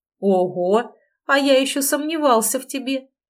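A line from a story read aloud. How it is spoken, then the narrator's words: Laughing again. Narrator (Russian): опять засмеялся он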